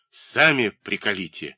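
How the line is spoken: Irritated, angry reply. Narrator (Russian): раздраженно и зло отвечает другой голос

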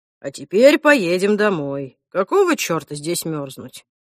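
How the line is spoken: Calm. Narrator (Russian): Альф спокойно сказал

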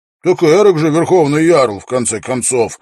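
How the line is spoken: Snappish retort. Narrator (Russian): огрызнулся Свенгл

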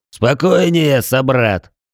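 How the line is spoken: Growling tiger. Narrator (Russian): прорычал тигр

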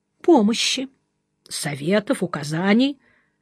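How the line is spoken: Brief calm statement. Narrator (Russian): коротко и спокойно сказал Жеглов

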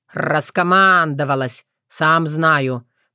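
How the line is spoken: Almost silent mutter. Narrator (Russian): пробурчал Вран, но почти беззвучно

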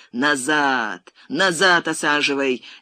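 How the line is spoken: Loud booming yell. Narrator (Russian): зычным голосом заорал он на водителя

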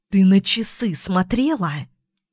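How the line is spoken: Hissed. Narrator (Russian): зашипела Эмма

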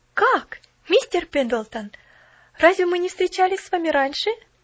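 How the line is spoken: Exclaimed. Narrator (Russian): воскликнула она

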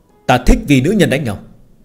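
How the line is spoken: Cold. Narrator (Vietnamese): Phương Hành lạnh lùng nói

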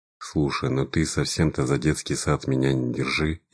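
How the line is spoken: Sad, smiling. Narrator (Russian): я грустно улыбнулся

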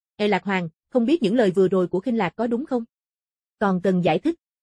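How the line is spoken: Cold. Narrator (Vietnamese): Khinh Lạc lạnh lùng

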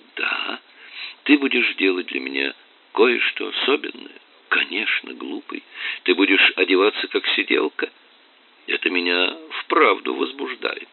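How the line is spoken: Whispered. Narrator (Russian): прошептала

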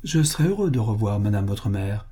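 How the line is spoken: Plain. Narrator (French): dit M

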